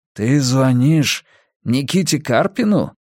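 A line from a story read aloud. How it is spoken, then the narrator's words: Breathless exhale. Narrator (Russian): выдохнул Полок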